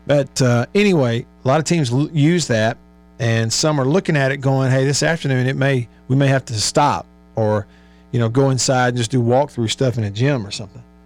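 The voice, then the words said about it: Hoarse, strained voice. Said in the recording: “I've been hoarse all day, kind of losing my voice.”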